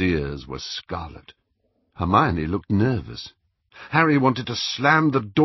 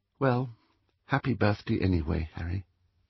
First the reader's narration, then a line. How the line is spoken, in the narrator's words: Ginny said in a flat little voice